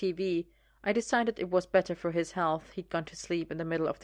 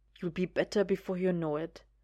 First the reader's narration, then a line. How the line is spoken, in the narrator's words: 'd whisper, a certain amount of wishful thinking there